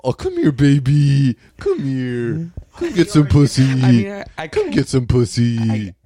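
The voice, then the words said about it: Cutesy puppy voice. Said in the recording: “talking dirty to you in a puppy voice”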